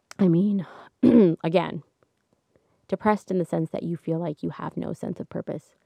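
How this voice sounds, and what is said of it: Cracking, strained voice. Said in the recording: “I've been talking a lot. My voice is cracking.”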